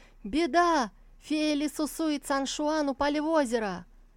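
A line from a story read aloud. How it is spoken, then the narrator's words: Shouting. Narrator (Russian): На вершине склона кто-то закричал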